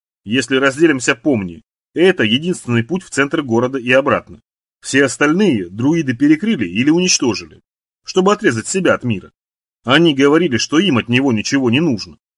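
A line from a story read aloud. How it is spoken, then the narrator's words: Plain. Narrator (Russian): сказал Карл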